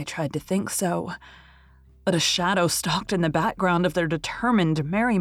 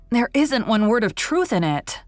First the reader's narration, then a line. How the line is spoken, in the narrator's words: she declared hotly